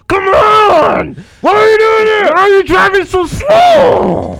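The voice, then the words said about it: Angry yelling. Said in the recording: “I'm yelling even louder”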